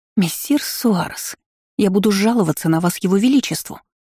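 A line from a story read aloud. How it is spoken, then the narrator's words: Hissing. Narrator (Russian): шипела леди Балтимер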